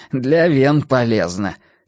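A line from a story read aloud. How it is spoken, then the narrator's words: Short laugh. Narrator (Russian): хохотнул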